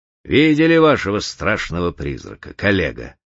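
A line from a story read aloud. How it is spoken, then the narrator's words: Mocking. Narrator (Russian): насмешливо обратился Путилин к В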